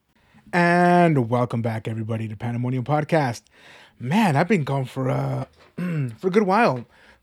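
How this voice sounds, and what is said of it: Strained voice that occasionally cracks. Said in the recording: “Sorry about my voice. My allergies have been really bad, so if you hear my voice crack every now and then”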